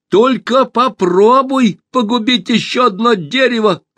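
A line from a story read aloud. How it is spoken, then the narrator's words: Shouting. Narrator (Russian): крикнула Алиса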